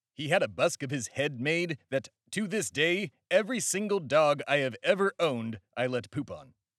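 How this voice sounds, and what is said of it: Imitates another person's voice. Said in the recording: “That's my impression of Benedict Arnold.”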